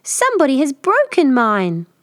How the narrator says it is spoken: Tiny Bear squeaked

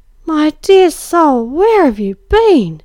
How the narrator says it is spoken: she cried

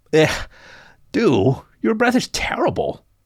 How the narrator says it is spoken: had whined

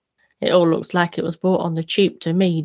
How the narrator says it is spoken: Dawn sighed

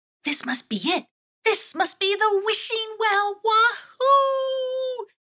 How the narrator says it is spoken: exclaimed Intrepta

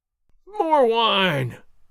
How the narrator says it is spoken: Gonzalez howled

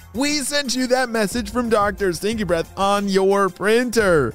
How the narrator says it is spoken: laughed Ava

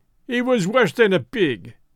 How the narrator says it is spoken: he cried

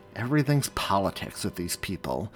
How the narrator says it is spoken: he muttered

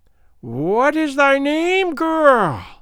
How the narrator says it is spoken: piped Gagool

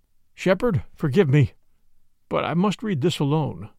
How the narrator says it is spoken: he said, unsteadily

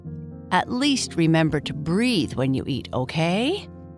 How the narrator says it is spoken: Papa Bear said, laughing

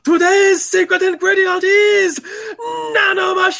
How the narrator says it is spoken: One of the hoops screams in a very loud voice

